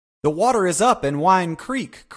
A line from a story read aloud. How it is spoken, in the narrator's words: cried Joe Welling with the air of Pheidippides, bringing news of the victory